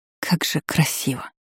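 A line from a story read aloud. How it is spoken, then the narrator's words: Awed whisper. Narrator (Russian): прошептала, словно впервые любуясь открывшимся пейзажем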